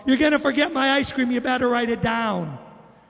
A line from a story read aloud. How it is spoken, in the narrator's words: yelled out